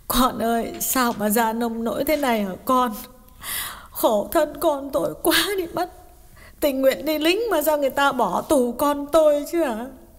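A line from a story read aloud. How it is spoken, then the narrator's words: Tearful sobbing question. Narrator (Vietnamese): Bà mẹ mếu máo hỏi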